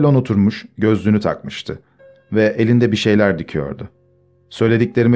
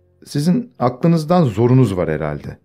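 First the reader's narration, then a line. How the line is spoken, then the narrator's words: Plain. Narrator (Turkish): dedi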